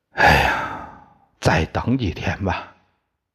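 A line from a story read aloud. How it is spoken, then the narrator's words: Long sigh. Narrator (Chinese): 铜铁匠长长叹了一口气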